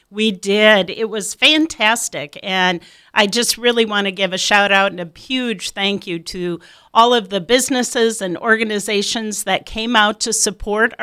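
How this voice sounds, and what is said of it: Slightly hoarse voice. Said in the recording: “my voice might be a little hoarse this morning from cheering on the Midland Warriors at the volleyball game last night”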